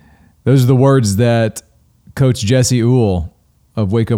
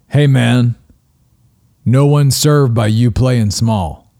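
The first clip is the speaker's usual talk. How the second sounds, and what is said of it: Gravelly, deep voice. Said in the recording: “It's kind of a gravelly, deep voice.”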